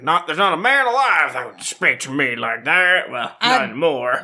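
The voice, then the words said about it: Put-on Scottish accent. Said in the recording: “What an accent. Beautiful. ... That's my Scottish accent. ... It's perfect.”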